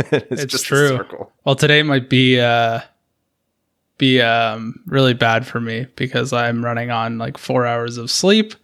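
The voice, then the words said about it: Hoarse, fading voice. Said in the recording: “I'm losing my voice too”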